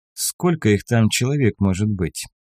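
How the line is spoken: Calm question. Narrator (Russian): спросил спокойно

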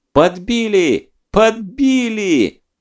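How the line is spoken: Joyful shout. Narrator (Russian): Кто-то радостно закричал

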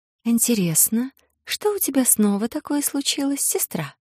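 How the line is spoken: Soft rustling voice. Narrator (Russian): Мягко прошелестел по духам голос зеленоволосый

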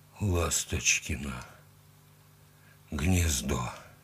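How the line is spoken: Hoarse rasp. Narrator (Russian): прохрипел он

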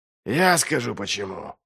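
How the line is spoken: Snorted. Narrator (Russian): фыркнул Доу

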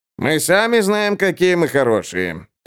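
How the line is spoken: Sullen grumble. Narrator (Russian): хмуро проворчал Инджи

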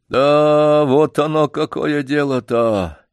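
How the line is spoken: Dejected old man. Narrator (Russian): произнес старик упавшим голосом

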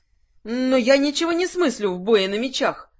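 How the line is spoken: Exclaimed. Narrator (Russian): воскликнула Лакриста

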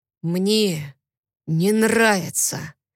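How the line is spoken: Hoarse voice close to ear. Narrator (Russian): Слышу я охрипший голос около самого уха

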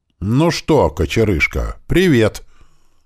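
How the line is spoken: Sinister mocking tone. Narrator (Russian): Немного зловещим, немного издевательским тоном сказала мама

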